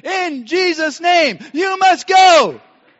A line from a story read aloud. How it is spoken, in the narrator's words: shouting back and forth at each other for several minutes